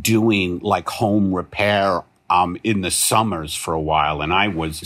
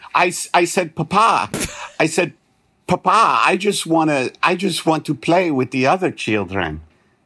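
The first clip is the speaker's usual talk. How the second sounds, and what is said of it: Mediocre put-on Transylvanian accent. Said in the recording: “It's getting more Transylvanian. ... My accent work is not the best.”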